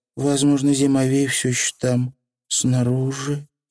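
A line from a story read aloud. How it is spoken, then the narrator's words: Muttered. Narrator (Russian): пробормотала Тиффани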